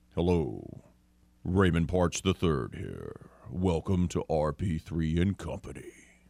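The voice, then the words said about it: Exaggerated deep announcer voice. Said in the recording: “How about that deep? You like that? Should I start doing that as my voice every day?”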